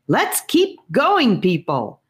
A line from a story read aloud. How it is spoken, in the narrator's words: he yelled to the group